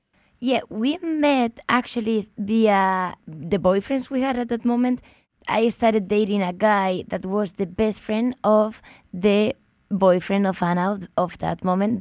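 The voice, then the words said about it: Spanish accent. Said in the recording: “that is a Spanish accent. ... You two are from Madrid.”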